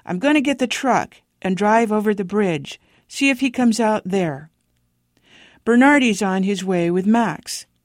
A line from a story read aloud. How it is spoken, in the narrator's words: Deputy Kern shouted from approximately 20 feet away